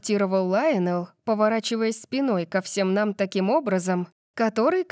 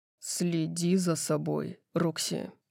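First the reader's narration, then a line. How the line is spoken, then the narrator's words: Growling. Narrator (Russian): прорычал он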